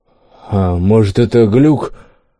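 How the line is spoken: Stammering. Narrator (Russian): заикаясь, произнес

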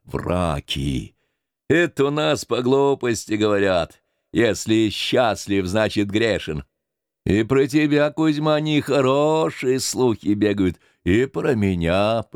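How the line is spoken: Bleating laughter. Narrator (Russian): А тугобородый текстильщик, захохотав, как баран, ответил

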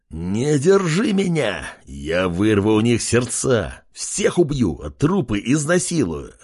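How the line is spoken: Man growling and roaring. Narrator (Russian): Рычал и ревел человек из народа Шакари

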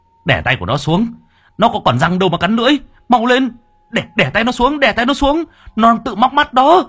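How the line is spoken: Shout. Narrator (Vietnamese): Báu hét lên

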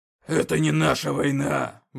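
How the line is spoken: Orc roaring. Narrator (Russian): вновь проревел орк

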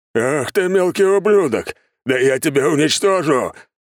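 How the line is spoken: Mage's furious roar. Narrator (Russian): заорал маг, исказившись в лице от ярости

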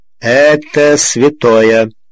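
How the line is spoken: Stern. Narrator (Russian): сказал Илья строгим голосом

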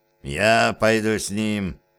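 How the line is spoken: Growled. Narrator (Russian): Курце аж зарычал

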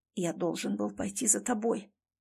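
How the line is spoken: Whispered. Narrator (Russian): прошептал

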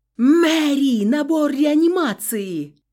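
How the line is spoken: Shout. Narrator (Russian): закричала

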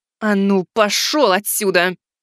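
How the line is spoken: Young woman shouting. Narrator (Russian): крикнула девушка

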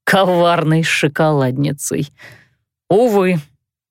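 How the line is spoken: Short laugh. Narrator (Russian): хохотнул Шанвер

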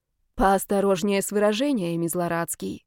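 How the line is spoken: Gloomy remark. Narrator (Russian): мрачно заметила я

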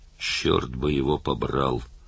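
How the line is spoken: Weary captain. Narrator (Russian): устало произнес капитан

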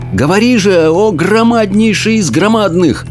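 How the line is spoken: Shouting into fog. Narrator (Russian): крикнул Абдулла в туман

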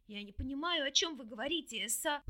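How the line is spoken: Hoarse, desperate, struggling. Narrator (Russian): Прохрипела я, повиснув на его руке и отчаянно трепыхаясь

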